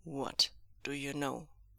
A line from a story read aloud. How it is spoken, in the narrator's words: Wang Ji asked, his voice low and cold and dangerous